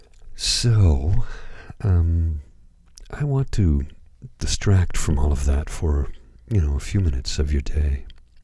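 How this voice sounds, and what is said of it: Slightly hoarse, dry voice. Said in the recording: “my voice is not in fine form this evening, as I'm a little hoarse... my throat is dry”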